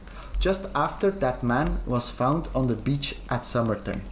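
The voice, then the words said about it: Weird, vaguely Irish-sounding accent. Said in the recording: “What a weird accent was that? ... Did I just started speaking Irish? ... I don't know what accent it was, but it was something.”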